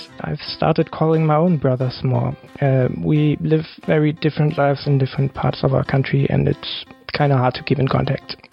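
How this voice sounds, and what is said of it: Put-on German accent. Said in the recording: “I hope my German accent makes it funny.”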